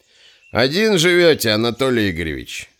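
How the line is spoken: Relaxed question. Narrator (Russian): расслабленно спросил Куропаткин

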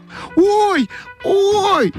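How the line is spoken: Shouting. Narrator (Russian): закричала Ойка

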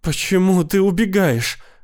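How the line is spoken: Sobbing. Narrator (Russian): рыдала она

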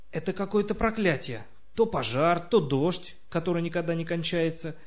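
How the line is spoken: Grumbling. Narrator (Russian): ворчал Крис

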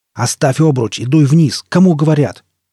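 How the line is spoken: Bark. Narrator (Russian): рявкнул Кальтер

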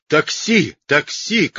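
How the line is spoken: Frantic shouting. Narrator (Russian): как сумасшедший закричал папа

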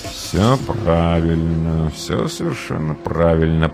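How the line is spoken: Muttered. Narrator (Russian): пробормотал реалист

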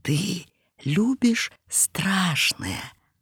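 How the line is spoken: Quiet muffled question. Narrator (Russian): тихо спросил, закрывая рукой рот Иванов

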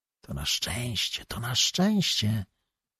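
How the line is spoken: Whispered. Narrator (Polish): szepnął do Małgorzaty Korowiow

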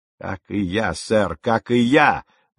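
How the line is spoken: Exclamation. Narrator (Russian): воскликнул капитан

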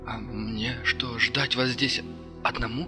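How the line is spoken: Uncertain voice. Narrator (Russian): Голос Кирилла прозвучал неуверенно

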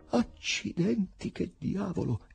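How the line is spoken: Director exclaiming. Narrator (Italian): esclamò il direttore

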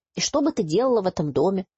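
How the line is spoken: Grumbling. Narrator (Russian): продолжает ворчать Алекс

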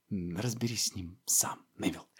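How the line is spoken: Whisper. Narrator (Russian): шепнул

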